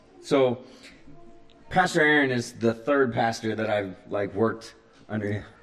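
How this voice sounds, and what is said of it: Choked-up emotional voice. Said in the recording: “getting choked up”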